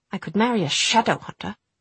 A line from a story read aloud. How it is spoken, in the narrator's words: Jessamine spat out the word